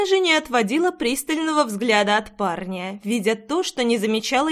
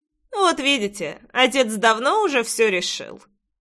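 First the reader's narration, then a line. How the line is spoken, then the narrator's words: Snorting. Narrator (Russian): хмыкнул Джексон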